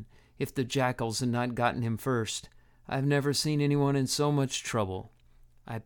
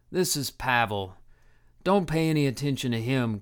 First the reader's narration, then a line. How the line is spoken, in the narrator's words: groaned Harim